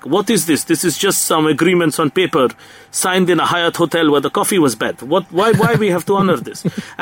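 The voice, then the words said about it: Bad put-on Russian accent. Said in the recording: “that is the worst Russian accent in the history of the world... I enjoyed the Russian accent.”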